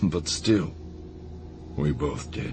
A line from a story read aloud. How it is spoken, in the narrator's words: Hans said quietly